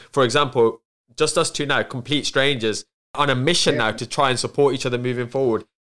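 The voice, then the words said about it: Black Country Wolverhampton accent. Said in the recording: “my accent being from the Black Country and then Wolverhampton accent ... you guys speak really, really quickly”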